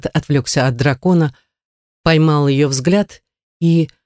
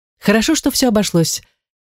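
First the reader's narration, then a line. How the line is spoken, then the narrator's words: Cheerful remark. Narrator (Russian): весело заметила Гортензия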